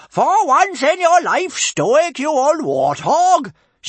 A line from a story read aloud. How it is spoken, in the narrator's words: she bellowed